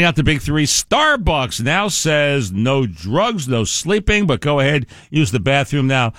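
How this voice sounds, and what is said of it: Usual voice. Nothing is said of it.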